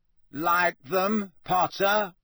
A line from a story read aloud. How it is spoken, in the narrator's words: said Malfoy loudly